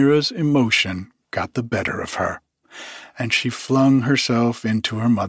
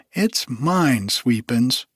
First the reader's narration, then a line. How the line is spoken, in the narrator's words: cried the child